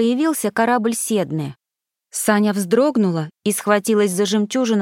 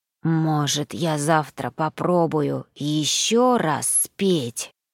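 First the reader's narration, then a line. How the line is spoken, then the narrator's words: Hoarse. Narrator (Russian): сипло проговорил Гарри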